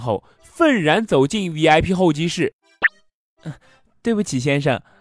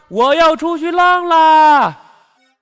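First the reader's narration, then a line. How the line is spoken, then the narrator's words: Loud boastful shout. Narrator (Chinese): 叫嚣着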